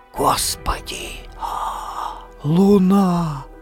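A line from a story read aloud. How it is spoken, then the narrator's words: Shocked whisper. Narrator (Russian): потрясенно прошептал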